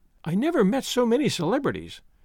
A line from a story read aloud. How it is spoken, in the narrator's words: Daisy exclaimed